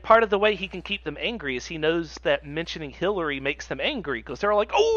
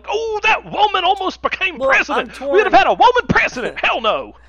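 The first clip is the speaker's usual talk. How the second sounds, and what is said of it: Yosemite Sam cartoon voice. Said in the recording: “how you turn him into Yosemite Sam ... I don't have a good Lumpy impression.”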